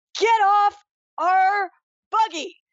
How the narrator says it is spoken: she'll yell at these guys and say

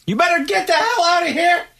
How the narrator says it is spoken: the homeowner ... he yelled down to the intruder

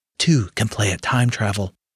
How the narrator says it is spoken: he muttered

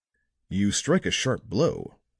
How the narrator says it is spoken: he said

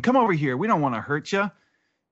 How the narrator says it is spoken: they're shouting to the woman

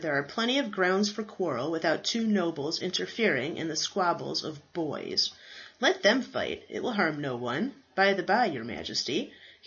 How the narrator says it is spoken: he said, with a laugh

